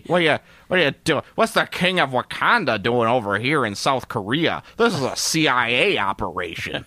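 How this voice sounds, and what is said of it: Put-on American accent. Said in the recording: “Because I'm going to do an American accent.”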